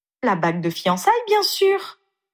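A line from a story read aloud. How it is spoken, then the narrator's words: Matter-of-fact exclamation. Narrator (French): s'exclama-t-elle comme si c'était la chose la plus évidente du monde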